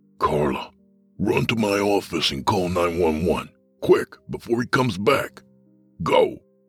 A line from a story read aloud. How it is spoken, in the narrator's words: Carmine hissed